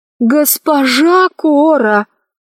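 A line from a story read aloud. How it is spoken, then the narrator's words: Sincere pleading. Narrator (Russian): искренне взмолился Гим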